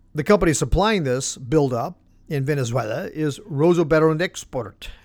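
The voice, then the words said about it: Poor put-on Russian accent. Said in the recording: “my Russian accent does need some work”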